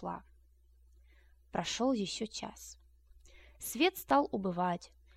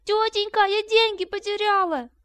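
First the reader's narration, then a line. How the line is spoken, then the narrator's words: Shouting. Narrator (Russian): закричала она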